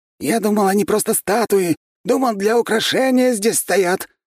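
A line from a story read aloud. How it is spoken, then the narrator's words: Frightened yelling. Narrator (Russian): испуганно заорал Градовский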